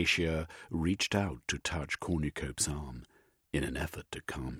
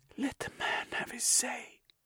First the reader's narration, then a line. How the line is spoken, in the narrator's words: whispered